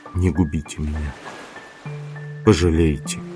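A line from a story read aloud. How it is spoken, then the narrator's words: Barely audible trembling whisper. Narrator (Russian): Губы Брике дрогнули, и она чуть слышно прошептала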